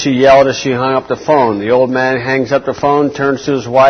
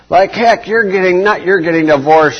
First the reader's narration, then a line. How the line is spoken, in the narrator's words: she shouts